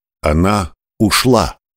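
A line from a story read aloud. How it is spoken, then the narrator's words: Clear voice. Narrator (Russian): словно сказал кто-то ясным голосом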